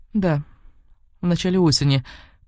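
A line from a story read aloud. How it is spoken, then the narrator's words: Sad. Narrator (Russian): печально кивнула сестра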